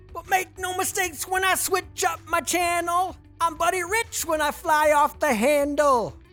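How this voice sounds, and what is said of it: Deliberately bad imitation of rap vocals. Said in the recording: “my Beastie Boys impression. It's terrible”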